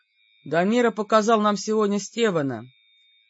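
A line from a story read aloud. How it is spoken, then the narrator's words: Grim. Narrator (Russian): мрачно сказал Ван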